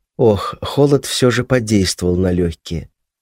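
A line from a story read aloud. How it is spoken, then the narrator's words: Muttered. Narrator (Russian): пробормотав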